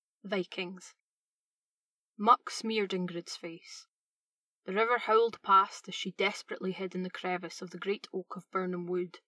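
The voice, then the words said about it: Scottish accent. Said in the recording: “She's got a killer Scottish accent.”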